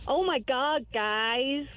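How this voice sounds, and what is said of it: Put-on American accent. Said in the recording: “Can you do the American accent ... say something in American”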